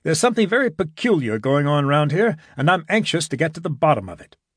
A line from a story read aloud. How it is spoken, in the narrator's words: Gibson continued hastily